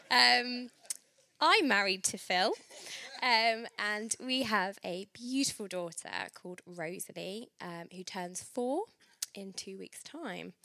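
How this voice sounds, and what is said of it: Congested voice from a cold. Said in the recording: “I have got a bit of a cold”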